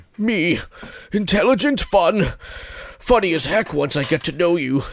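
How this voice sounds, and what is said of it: Put-on old man voice. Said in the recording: “I'm going to do my best old man voice.”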